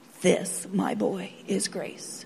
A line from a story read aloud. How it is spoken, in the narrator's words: the principal softly says